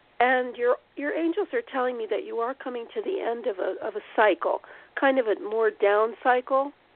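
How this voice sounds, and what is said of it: Hoarse, fading voice. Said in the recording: “I don't know why I'm losing my voice, but I am.”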